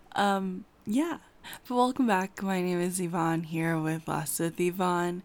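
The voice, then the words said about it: Groggy, just-woken-up voice. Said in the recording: “as you can tell by my voice, I just woke up ... I sound like I'm sick or I sound like I was up all night”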